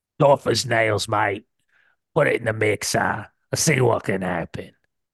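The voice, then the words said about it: Australian twang, Postecoglou-like impression. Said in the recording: “Your Deitch is very Postecoglou. That was a little bit, there's a twang. There's a G'day, koala mate. Twang in there.”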